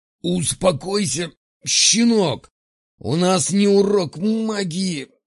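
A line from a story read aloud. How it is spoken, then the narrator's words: Hoarse wheezing. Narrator (Russian): хрипел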